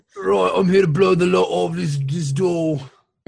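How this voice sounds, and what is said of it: Deliberately bad Cockney accent. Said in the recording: “a guy with like a really bad Cockney accent who's the demolitions explosives expert ... a Cockney accent explosive expert”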